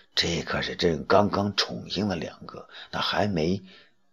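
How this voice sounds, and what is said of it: Quiet whispered voice. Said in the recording (Chinese): “小声的说”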